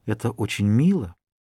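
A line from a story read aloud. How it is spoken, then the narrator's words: Whispered. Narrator (Russian): Она прошептала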